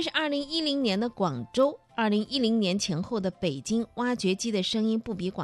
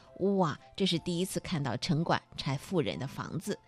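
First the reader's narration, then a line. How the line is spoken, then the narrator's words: Marveling exclamation. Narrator (Chinese): 摄影师感叹说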